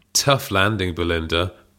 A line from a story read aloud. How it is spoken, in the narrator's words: purred Hazel